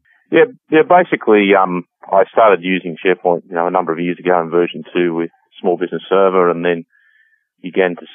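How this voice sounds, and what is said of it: Australian accent. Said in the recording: “my accent from this side of the world ... We translate Australian just fine up here.”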